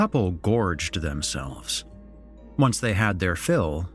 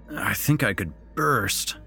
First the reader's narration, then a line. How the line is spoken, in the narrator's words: groaned